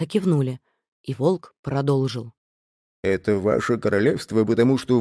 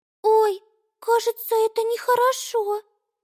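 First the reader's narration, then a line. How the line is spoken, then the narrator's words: Squeak. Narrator (Russian): пискнула Амелия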